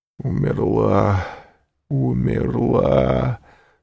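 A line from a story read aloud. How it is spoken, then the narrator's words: Anguished moaning. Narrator (Russian): стонал Вильфор в пароксизме душевной муки, тем более раздирающей, что она была неизведанной, новой, неслыханной для этого стального сердца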